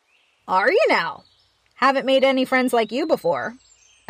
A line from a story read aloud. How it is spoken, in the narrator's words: said